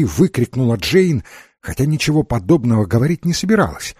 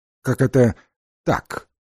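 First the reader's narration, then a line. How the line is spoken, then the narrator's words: Cold question. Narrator (Russian): холодно спросила Джейн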